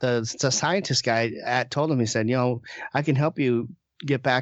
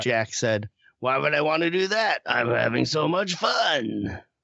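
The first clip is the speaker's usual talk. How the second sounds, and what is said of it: Imitates a movie character's voice. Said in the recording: “That's a great impression. ... It's actually better than the performance.”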